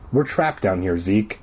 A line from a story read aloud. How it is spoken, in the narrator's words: I murmured